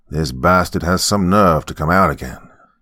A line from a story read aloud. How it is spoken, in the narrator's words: he growled